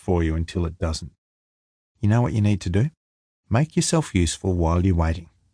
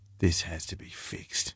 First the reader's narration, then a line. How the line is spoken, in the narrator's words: he whispered